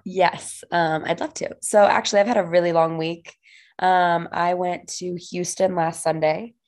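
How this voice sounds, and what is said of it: Hoarse, raspy voice. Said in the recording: “your voice is a little bit hoarse ... why your voice is so raspy”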